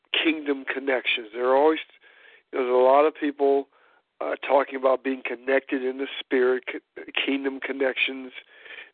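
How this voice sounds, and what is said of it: Hoarse, congested voice. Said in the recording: “I'm a little hoarse. ... I'm a little congested, so I hope I'm clear.”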